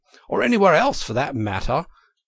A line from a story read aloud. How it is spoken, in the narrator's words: cried Toad boisterously